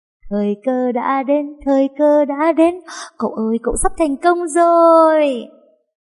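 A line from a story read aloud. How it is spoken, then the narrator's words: Joyful cheering. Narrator (Vietnamese): Nó sung sướng nhảy nhót trên giường reo hò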